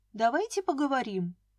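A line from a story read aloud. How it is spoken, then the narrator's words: Calm reply. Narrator (Russian): спокойно ответила я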